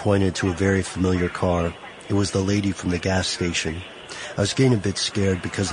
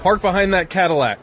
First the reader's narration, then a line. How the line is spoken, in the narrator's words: He yelled